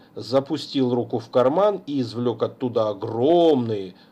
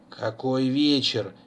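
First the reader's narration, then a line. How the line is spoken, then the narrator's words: Displeased grumble, old man. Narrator (Russian): недовольно проворчал старик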